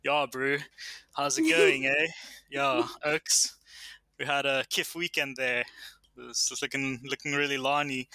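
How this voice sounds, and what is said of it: Exaggerated South African Vaal accent, drawn-out vowels. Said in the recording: “your sort of Vali accent, where that's where I'm from, where Elon's from, the Transvaal. And then it's like these sort of drawn out vowels”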